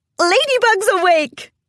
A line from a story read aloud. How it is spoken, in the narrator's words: Cadence yelled in joyous response